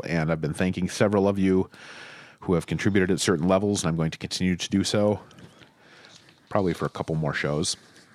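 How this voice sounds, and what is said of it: Strained, fading voice. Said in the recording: “I'm losing my voice,”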